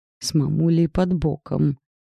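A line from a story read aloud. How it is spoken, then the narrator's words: Grumbling. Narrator (Russian): пробурчала я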